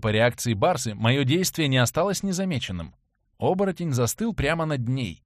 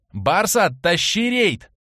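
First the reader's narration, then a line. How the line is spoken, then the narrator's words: Shouted reply. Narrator (Russian): прокричал я ей в ответ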